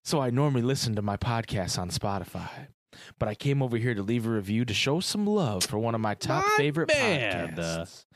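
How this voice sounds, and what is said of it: Smooth, buttery radio-host voice. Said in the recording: “he just has a very smooth, buttery radio voice ... in my best I Escape voice”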